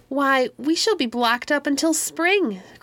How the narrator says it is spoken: cried, with the hugest delight

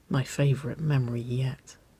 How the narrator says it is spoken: Waverly murmured, just hushed enough for only Nicole to hear her

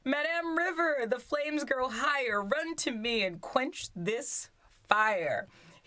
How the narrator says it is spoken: Drakesdale cried

